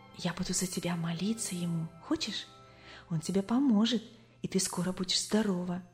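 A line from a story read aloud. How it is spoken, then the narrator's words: Girlfriend, trusting whisper. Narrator (Russian): подружка доверчиво шептала ей в самое ухо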